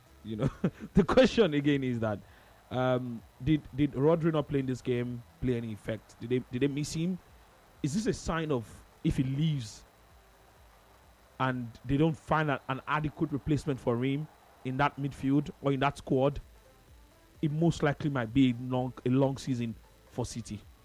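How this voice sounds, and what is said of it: Very serious tone. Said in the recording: “this is my very serious voice now. I was bantery before.”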